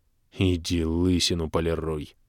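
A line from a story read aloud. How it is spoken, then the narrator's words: Angry hiss, gnome. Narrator (Russian): зло прошипел гном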